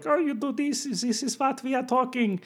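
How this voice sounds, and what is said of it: Exaggerated comedic German accent. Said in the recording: “a funny German accent, it would do that Kermit kind of, like”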